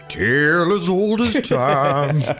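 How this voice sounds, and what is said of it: Sung imitation of another singer. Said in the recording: “That's actually not a bad impression.”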